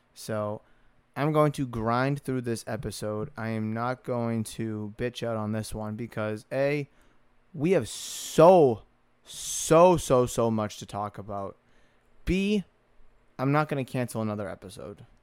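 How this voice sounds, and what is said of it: Hoarse, worn-out voice. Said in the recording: “my voice is probably and is very, very shot”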